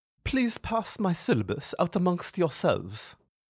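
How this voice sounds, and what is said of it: Dense French accent. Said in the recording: “each word tumbles forth through a dense French accent.”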